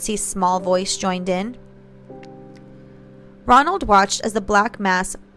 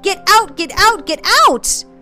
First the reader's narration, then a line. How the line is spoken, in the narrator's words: as if releasing all the fear that she had trapped within her, Nancy screamed